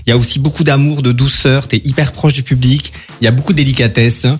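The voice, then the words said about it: Sing-song regional French accent. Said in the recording (French): “c'est pas du tout un accent de Strasbourg que tu as là ... c'est beau, ça chante”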